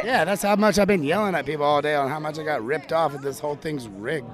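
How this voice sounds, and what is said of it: Hoarse, strained voice. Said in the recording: “You can tell he's talking. You're losing your voice.”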